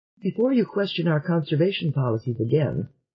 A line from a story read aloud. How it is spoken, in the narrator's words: said Selene